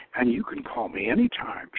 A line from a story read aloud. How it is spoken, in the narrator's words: purred